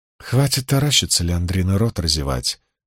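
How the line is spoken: Calm woman's voice. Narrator (Russian): спокойно произнесла сидевшая женщина

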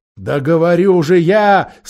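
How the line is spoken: Fat man, speaking again. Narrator (Russian): снова начал толстяк

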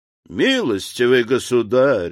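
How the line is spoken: Exclaiming. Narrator (Russian): воскликнул Николь

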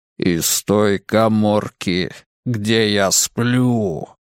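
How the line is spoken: Growling. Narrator (Russian): зарычал снова

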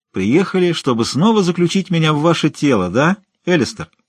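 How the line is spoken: Cheerful question. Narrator (Russian): весело спросил Лумис

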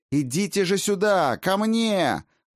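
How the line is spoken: Straining shout. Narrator (Russian): Надсаживаясь, крикнула Райна теням асов

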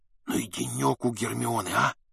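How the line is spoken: Stunned whisper. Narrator (Russian): шепнул Гарри ошарашенный Рон

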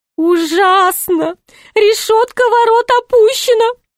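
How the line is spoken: Groaning. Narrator (Russian): простонал Шут

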